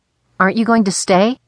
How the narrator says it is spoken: asked nervously

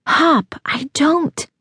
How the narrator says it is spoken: He felt her shiver, but her lips whispered

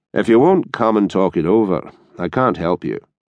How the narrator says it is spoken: Rayburn said flatly

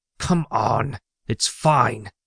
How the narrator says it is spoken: hissed Loki

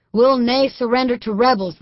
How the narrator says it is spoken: Highlander officer hollered back

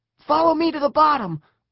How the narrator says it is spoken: Eric yelled

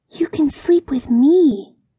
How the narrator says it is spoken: whispered to her kitten

